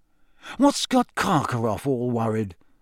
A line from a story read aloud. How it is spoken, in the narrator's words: muttered